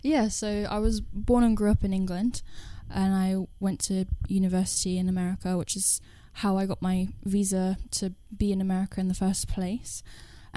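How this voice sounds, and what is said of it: English accent. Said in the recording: “because you're English, if you can't tell by the accent.”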